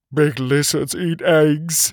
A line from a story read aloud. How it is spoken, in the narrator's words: he whimpered